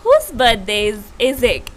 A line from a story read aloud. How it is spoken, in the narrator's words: in a cheerful tone